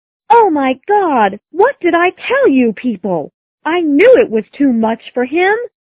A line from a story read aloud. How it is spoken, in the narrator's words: shouted the little girl